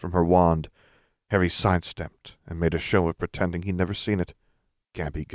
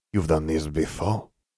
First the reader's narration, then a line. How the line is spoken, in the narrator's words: she growled